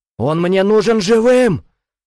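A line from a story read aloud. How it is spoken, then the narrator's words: Shouting. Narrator (Russian): закричал Бахтияр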